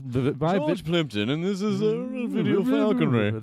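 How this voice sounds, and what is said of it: Upper-class mumbling impersonation. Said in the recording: “you do an amazing George Plimpton impersonation ... Just sort of Harvard-y upper class mumbles”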